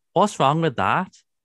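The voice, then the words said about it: Imitates another person's voice. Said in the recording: “That's probably not as good, my impression there”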